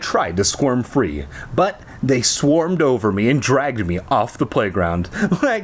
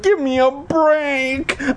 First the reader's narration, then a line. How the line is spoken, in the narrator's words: I screamed